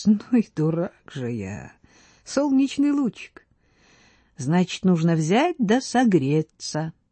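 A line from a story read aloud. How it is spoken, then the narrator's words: Laughing speech. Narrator (Russian): проговорил, смеясь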